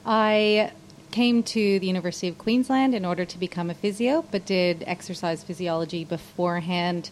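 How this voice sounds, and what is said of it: Canadian accent. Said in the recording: “I'm Canadian, if anybody's wondering about the accent.”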